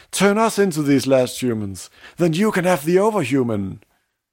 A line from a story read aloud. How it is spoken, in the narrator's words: the crowd agrees, because they interrupt old Zarathustra and shout